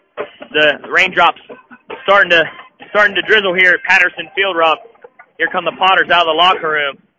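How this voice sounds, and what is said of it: Out of breath, breathing heavily. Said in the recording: “you're a little out of breath ... I'm out of shape, and I ran up the steps ... You're not breathing as heavy as me ... As I continue to try to catch my breath here”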